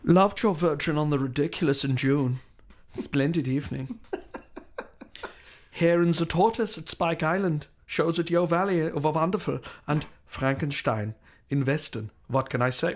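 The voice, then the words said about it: Put-on German accent. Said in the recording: “doing you in a German accent”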